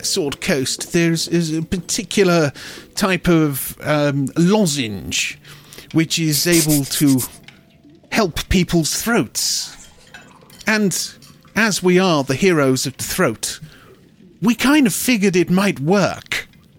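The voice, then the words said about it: Wandering put-on character accent. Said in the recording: “I don't know where this man's accent's going”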